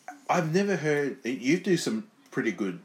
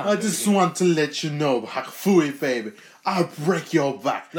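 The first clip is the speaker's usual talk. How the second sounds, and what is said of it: Imitates a wrestler's voice. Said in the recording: “impersonations of wrestlers ... Can I hear your Iron Sheik?”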